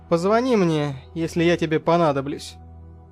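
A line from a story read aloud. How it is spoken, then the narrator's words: Curt, dry remark. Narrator (Russian): Сухо бросил я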